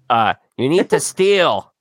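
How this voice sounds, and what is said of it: Imitates another person's voice. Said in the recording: “my A Rod impression”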